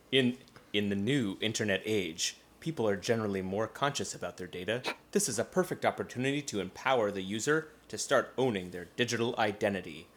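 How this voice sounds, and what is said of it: Put-on voice, inconsistent wandering accent. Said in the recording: “I'm gonna do a voice... My accent is going all over the place.”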